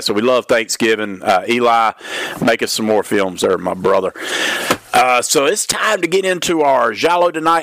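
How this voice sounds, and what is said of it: Weak, slightly sick voice. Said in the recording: “My voice is a little weak tonight. I'll try to keep from coughing, but if you hear a sniff or a cough every once in a while ... I'm starting to get a little bit of a bug”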